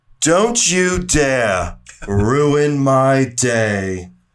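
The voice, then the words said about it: Imitates a villainous character's voice. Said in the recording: “my Maleficent impression”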